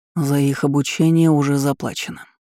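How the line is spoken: Calm reply. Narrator (Russian): спокойно отозвался Дирейн

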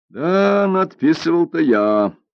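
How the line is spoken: Laughing reply. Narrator (Russian): ответил Бяньбинь, смеясь

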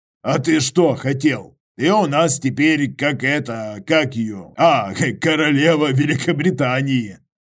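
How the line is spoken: Chuckling. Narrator (Russian): Иваныч хохотнул

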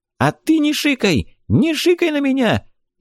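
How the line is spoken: Hysterical woman's shout. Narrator (Russian): истерическим тоном вскричала баба

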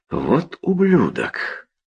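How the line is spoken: Soft. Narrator (Russian): сказал Поуп мягко

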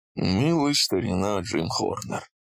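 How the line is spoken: Muttered. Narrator (Russian): пробормотал Бенрут

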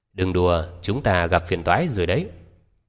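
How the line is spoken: Cold. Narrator (Vietnamese): Vương Uy lạnh lùng nói

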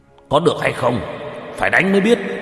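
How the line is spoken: Shaken angry shout. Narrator (Vietnamese): Hậu Khanh cảm giác trong lòng bị đả kích kịch liệt, quát lên

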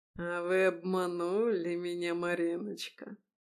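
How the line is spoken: Drawling oily bass. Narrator (Russian): протянул он своим масляным басом

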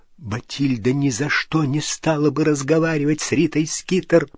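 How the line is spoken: Whispered. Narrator (Russian): прошептал Дож

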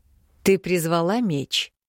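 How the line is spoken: Lazy, indifferent question. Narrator (Russian): Не придав произошедшему никакого значения, лениво поинтересовался Мракьян

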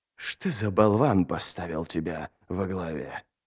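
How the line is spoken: Hoarse voice from darkness. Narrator (Russian): хриплый голос из темноты

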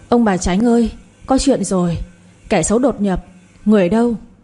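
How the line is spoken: Shouting. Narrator (Vietnamese): hét

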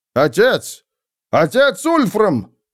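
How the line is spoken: Exclamation. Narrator (Russian): воскликнул он

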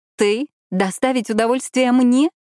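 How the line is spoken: Laughing. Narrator (Russian): рассмеялась я

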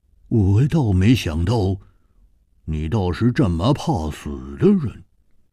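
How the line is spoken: Sneering. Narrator (Chinese): 胡铁花冷笑着说

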